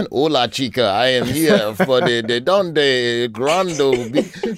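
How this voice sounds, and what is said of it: Deliberately bad Puerto Rican accent. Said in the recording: “Do you talk with an accent? ... that's a terrible Puerto Rican”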